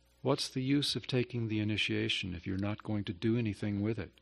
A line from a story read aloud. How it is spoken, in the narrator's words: He asked me, very softly